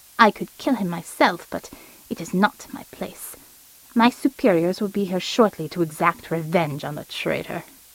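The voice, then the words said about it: Clipped German accent. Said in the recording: “accent had shifted from a gruff Midwestern twang to a clipped Germanic”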